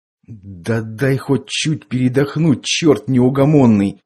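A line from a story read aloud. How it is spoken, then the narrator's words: Tired groan. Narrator (Russian): простонал Андрей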